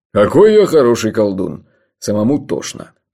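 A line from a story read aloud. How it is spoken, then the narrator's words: Grumbling. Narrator (Russian): проворчал Джуфин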